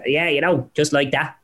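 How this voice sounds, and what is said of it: Padraig Harrington impression, Dublin accent. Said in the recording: “a Padraig Harrington ... a bit of a Dublin accent, and you just speak it up a little bit.”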